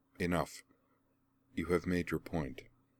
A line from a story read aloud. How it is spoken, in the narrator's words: she said quietly